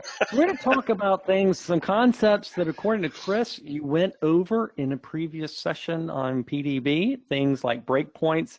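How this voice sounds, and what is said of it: Rural Southern American accent. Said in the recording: “my redneck accent”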